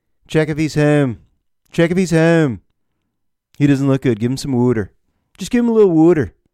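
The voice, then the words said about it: Put-on Philadelphia accent. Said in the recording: “going for that Philly accent? ... But the Philly accent? ... It got annoying in a hurry.”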